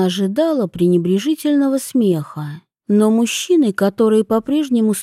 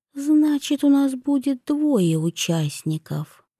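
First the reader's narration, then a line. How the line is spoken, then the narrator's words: Whisper. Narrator (Russian): прошептала она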